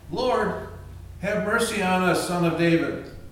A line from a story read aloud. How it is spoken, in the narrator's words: they cried out